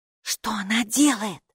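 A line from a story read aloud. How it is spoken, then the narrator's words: Whisper. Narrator (Russian): шепнула Хилла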